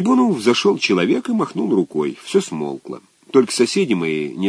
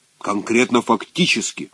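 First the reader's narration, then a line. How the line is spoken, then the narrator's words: Stern correction. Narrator (Russian): строго поправил второй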